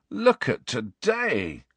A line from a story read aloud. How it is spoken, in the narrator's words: groaned Ron